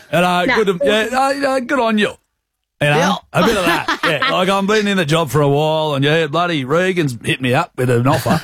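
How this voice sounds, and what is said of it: Put-on broad rural Australian accent. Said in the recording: “I might put on a bit ... what kind of accent are you going to do ... you sound bush ... Sound like Farmer Boy ... a bit more bush”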